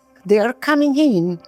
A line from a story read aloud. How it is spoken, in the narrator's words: they shouted after us